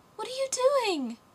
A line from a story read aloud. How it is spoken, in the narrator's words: cried the little girl